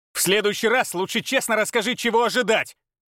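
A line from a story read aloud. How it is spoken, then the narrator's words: Bark. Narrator (Russian): рявкнул он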